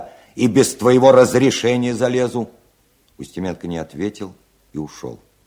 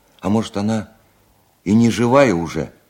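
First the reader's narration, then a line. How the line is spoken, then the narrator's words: Frightened inquiry. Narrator (Russian): испуганно осведомился старшина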